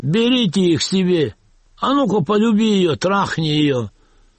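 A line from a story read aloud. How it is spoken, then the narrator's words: Drunken laughing shouts. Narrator (Russian): Пьяные немцы хохотали, кричали заключенным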